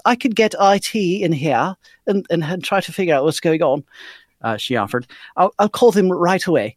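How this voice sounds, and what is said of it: Put-on British accent, poorly done. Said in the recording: “Professor Lucy has a British accent, so I've been given permission from Abigail to read it as such. ... my terrible interpretation of her voice”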